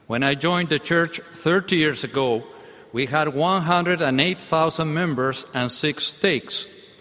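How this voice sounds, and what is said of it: South American accented English. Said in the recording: “English spoken with an accent ... I'm from South America”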